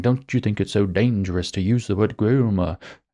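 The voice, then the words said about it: Bad mocking British accent. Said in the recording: “My bad British accent is a little bit of mocking.”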